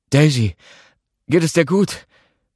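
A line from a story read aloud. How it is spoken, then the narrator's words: Breathless, pained blurting. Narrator (German): Atemlos vor Schmerz stieß er hervor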